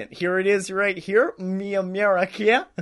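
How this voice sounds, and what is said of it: Put-on American accent. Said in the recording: “I like to seem more American. So I do my American accent.”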